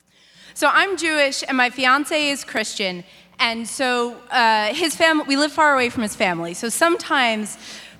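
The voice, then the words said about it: Breathless, out-of-breath speech. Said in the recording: “Sorry, I'm out of breath.”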